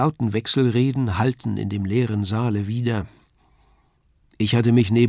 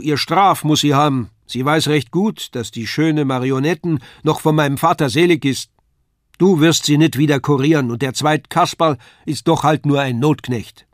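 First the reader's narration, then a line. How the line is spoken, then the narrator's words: Calling out. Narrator (German): rief die Frau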